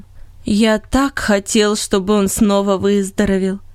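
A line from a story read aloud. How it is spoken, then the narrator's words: Plain. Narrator (Russian): сказал Ирни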